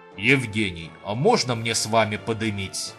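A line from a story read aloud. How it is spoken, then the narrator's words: Languid menacing exclamation. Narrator (Russian): Томно-грозно воскликнул человек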